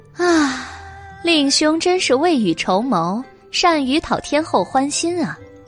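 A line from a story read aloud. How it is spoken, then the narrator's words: Sighing. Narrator (Chinese): 白姬叹道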